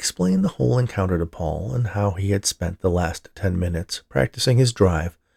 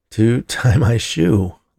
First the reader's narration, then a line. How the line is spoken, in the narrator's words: laughed Scott